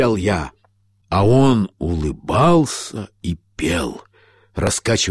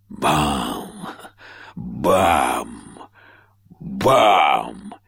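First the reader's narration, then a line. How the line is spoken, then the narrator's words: Loud singing echoing bell. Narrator (Russian): высокий человек громко пел, вторя колоколу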